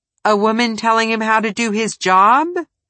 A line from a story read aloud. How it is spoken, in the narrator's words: Tebow chuckled